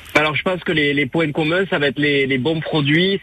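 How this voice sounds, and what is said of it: Slight southwestern French accent. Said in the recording (French): “le reconnaissent à votre petit accent, c'est le Sud-Ouest”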